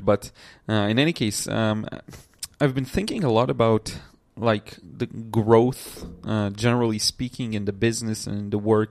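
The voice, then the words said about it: Slightly congested, runny-nose voice. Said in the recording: “I was a bit sneezed today ... My nose is a little runny, and my voice may be a little different”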